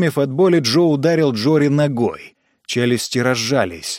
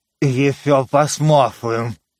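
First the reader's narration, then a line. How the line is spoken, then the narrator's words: Sheeplike growl while chewing. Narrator (Russian): прорычал Джори по овечьи, двигая челюстями и пережевывая руку Джо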